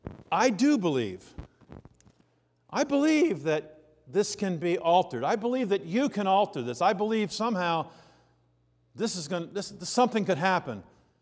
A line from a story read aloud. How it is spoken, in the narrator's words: the boy's father exclaimed